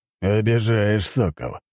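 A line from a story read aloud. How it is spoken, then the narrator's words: Wry snort. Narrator (Russian): хмыкнул в ответ Рыков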